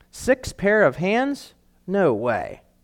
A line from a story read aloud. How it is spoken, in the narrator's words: shook her head slowly and said